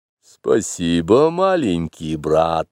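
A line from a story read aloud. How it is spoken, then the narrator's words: Hidden amusement. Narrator (Russian): сказал Каа, хотя глаза его смеялись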